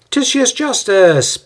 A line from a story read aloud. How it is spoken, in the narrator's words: Paul exclaims